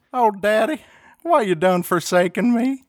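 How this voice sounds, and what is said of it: Put-on Texan accent. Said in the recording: “Texan Jesus”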